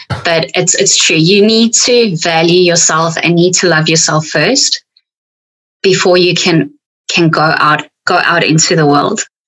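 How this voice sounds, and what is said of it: South African accent. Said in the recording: “with my South African accent, it comes a lot harsher”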